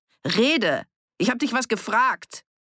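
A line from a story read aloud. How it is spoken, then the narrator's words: Yelling. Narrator (German): brüllte Annie sie an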